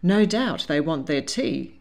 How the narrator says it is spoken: said dryly

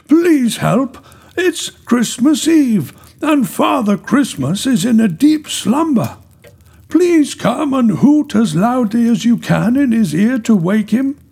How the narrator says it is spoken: cried Min

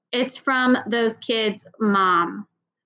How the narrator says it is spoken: announced in a bored voice

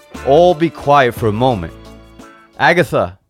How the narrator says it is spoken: called as loudly as he could

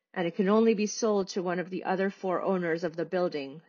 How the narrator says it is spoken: Sandhya said

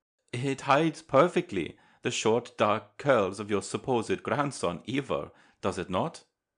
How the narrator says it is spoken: with a laugh

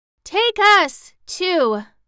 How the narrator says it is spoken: cried the 9 tiny piglets, all in one breath

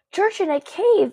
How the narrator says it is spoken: exclaimed Elias

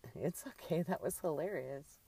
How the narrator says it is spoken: Carla chuckled

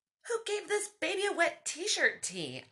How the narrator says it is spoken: I yelled out

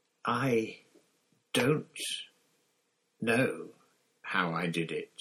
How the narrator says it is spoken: he said slowly

